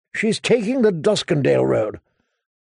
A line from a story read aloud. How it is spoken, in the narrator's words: Sir Cleos muttered